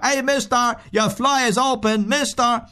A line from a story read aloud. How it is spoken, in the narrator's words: a slut shouts out of her